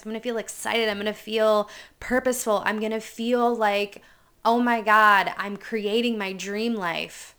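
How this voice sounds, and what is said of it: Energetic, excited voice. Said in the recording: “you can feel the energy in my voice has completely changed”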